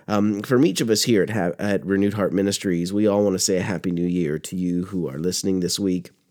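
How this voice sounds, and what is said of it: Froggy, hoarse voice. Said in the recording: “I am just getting over a cold, so if my voice sounds a little froggy”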